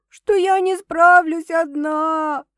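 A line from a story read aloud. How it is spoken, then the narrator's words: Sobbing explanation. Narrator (Russian): объясняю, всхлипывая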